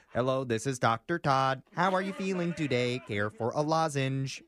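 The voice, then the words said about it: Weird robot character voice. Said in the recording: “he talks in this weird voice.”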